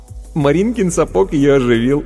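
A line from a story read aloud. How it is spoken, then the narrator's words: Giggling. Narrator (Russian): хихикнув, сказал Вовка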